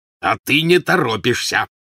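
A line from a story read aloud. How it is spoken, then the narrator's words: Growled. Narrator (Russian): прорычал Вернон Дурсль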